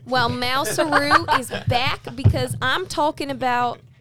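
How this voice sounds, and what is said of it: Put-on Aussie accent drifting southern. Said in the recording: “Aussie ... That went southern for a second ... Oh, the accent.”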